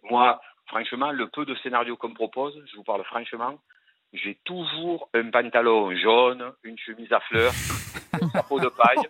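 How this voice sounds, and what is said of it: Marseille French accent. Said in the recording (French): “des clichés que vous entendez sur Marseille ... si on a un accent”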